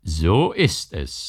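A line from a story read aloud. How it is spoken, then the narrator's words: Mocking. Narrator (German): sagte der Herr spöttisch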